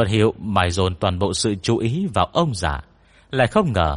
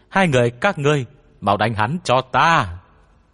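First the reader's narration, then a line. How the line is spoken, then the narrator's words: Child's loud shriek. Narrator (Vietnamese): giọng nhóc tinh linh nhân sâm hét toáng lên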